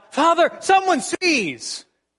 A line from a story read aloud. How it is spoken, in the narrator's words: yelled out